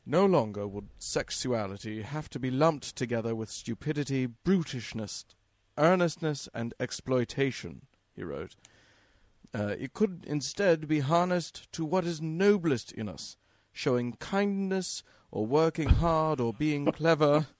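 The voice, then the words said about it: Put-on British accent. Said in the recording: “This needs to be done in a British accent. ... he does speak with a British accent.”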